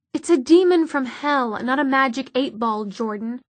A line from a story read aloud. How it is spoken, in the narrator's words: said Magnus irritably